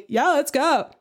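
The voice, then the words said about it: Imitates another person's voice. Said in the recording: “That's my Chez impression. ... That was a good impression”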